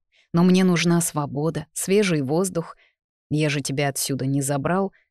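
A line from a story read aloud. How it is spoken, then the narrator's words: Grumbling stern dragon father. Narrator (Russian): проворчал ее грозный папа-дракон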